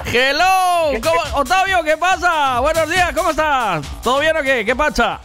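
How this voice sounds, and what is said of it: Shouting. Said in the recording (Spanish): “no grites tanto”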